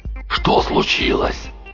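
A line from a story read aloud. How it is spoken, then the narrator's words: Hoarse rasp. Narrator (Russian): прохрипел он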